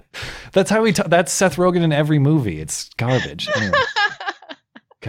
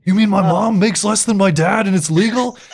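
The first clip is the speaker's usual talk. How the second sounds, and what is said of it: Imitates another person's voice. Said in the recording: “That was a really good impression.”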